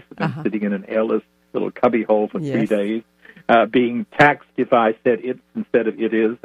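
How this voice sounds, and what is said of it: Noticeably unusual accent. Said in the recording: “my funny accent”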